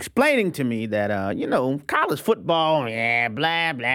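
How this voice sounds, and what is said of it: Usual voice. Nothing is said of it.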